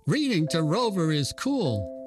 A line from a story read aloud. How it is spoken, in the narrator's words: exclaimed one of the boys